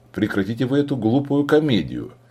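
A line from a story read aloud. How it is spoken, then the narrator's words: Showy loud laughter. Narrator (Russian): демонстративно расхохотался Мутушиме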